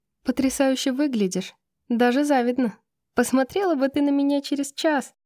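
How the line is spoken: Laughing. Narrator (Russian): засмеялась Юнипер

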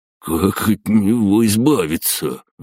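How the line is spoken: Breathless exhale. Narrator (Russian): выдохнул Гена

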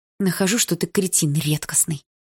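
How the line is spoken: Very quiet hiss. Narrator (Russian): снова зашипела, но тихо-тихо

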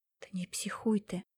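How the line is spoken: Whispered into phone. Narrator (Russian): зашептала в трубку Яна

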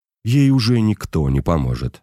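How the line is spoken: Plain. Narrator (Russian): ответил отец

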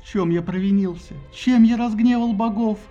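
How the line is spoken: Moaning. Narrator (Russian): стонал Тиндарей

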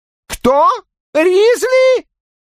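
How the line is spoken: Yelling. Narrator (Russian): вопит Секстон

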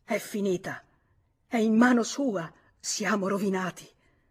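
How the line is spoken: Groaned. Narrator (Italian): Gemette

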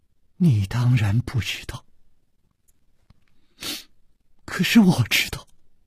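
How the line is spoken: Soft sigh. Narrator (Chinese): 公平轻轻地叹了一口气

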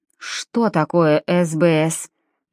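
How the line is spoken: Through gritted teeth. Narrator (Russian): поинтересовался анестезиолог сквозь зубы

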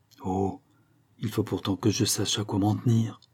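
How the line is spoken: Low voice through clenched teeth. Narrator (French): continua-t-elle à voix basse, brisant chaque parole entre ses dents serrées

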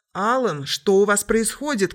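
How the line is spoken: Shout. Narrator (Russian): крикнула Стоун

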